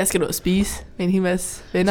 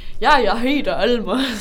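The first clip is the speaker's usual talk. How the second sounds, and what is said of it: Danish with a put-on German accent. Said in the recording (Danish): “snakke dansk med tysk accent”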